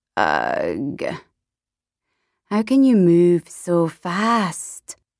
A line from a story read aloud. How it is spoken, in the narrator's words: Ernesta groaned